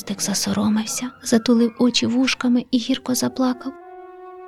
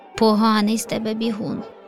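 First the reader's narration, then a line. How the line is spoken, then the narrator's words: Laughing. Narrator (Ukrainian): Засміявся леопардик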